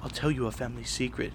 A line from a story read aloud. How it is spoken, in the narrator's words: she whispered enthusiastically